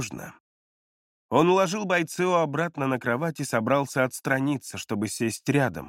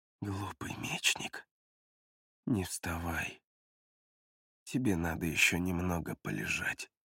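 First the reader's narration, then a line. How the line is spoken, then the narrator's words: Near whisper. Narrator (Russian): Он практически прошептал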